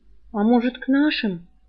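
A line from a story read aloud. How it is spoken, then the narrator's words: Timid suggestion. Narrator (Russian): робко предложил Цыка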